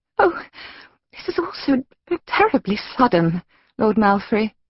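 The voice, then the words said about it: Feigned distressed female character voice. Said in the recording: “in tones of great and completely feigned distress”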